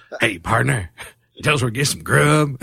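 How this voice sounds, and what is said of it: Bad fake Western accent. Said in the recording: “starts putting on the Western accent. ... it's such a bad Western accent, too.”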